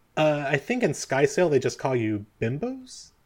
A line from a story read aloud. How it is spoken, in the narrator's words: she sort of giggles under her breath